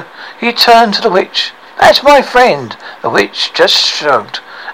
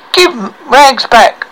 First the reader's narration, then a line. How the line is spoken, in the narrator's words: cried Hector